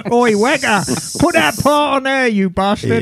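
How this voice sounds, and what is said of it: Put-on English accent. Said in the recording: “The accent ... They're assembled by English people.”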